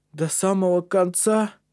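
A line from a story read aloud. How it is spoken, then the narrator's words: Exhausted groaning pair. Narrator (Russian): простонали двое других, измотанные подъемом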